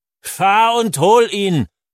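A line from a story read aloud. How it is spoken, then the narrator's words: Old man roaring. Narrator (German): brüllt der Alte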